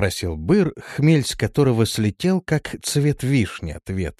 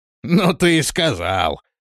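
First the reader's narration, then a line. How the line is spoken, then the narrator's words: Laughing. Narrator (Russian): рассмеялся Быр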